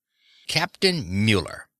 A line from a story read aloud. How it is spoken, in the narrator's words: Pietro said sharply